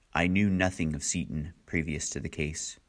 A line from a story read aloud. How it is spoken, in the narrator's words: In a clear, cold voice, the judge said